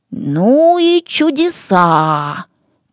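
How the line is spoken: Drawling. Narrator (Russian): протянул Аламазон

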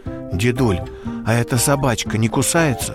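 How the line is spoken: Quiet question. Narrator (Russian): Степан тихонько спросил

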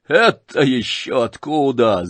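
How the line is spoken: Laughing. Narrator (Russian): засмеялся Рогожин

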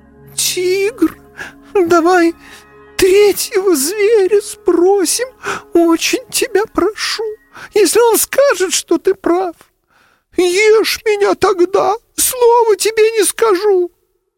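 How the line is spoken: Thin, trembling young voice. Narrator (Russian): олененок задрожал мелкой дрожью и сказал тоненьким голосом

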